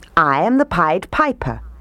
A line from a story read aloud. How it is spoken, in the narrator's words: he said